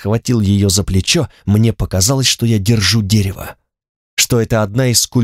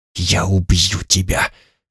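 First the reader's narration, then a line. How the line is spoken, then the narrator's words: Weak whisper. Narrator (Russian): шептал я бессильно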